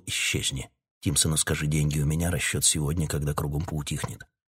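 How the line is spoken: Whispered while running. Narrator (Russian): шепнув на бегу Таунсенду

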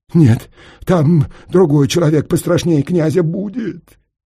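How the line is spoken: Sobbing. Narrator (Russian): Всхлипнул Проха

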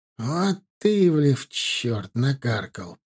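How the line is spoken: Grumbling. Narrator (Russian): ворчал он

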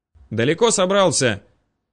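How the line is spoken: Shouting. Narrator (Russian): крикнул он

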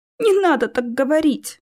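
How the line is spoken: Sobbing. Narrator (Russian): всхлипнула Алиса

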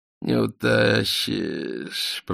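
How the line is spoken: Mutter. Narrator (Russian): пробормотал Полканов

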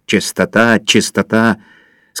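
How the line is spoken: Through gritted teeth. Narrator (Russian): сказал диспетчер сквозь зубы

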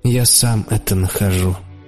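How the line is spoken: Gloomy reply. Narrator (Russian): ответил я мрачно

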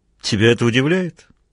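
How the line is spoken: Snorting. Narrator (Russian): фыркнул Мазур

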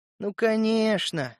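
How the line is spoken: Affectionate mutter. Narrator (Russian): ласково пробормотал я

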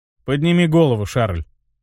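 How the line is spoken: Calm. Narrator (Russian): спокойно произнес я

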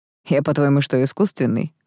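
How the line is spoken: Snort. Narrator (Russian): фыркнул Даррелл

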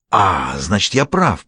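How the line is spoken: Hissing. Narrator (Russian): прошипел русский

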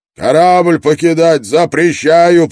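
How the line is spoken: Shout. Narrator (Russian): прокричал Брок

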